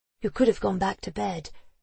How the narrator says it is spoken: she told him in a whisper

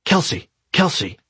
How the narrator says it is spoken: came a whisper from the door in the middle of the hallway

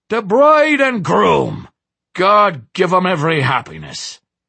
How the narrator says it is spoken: Scully roared

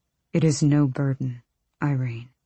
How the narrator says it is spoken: he said softly

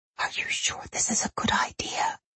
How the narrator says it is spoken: Camille whispered

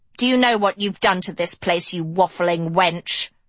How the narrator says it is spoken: Hester snarled

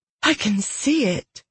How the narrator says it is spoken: Elidian breathed

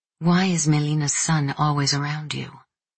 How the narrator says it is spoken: She whispered

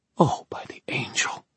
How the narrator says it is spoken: Diana whispered

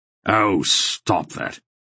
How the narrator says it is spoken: he said irritably

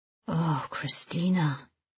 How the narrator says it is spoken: he murmurs

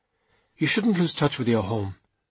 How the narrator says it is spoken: said Edda finally, her tone softening now

